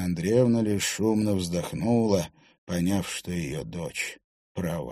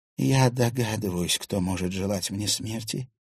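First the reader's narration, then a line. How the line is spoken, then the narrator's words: Quiet mutter. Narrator (Russian): тихо пробормотала Ксения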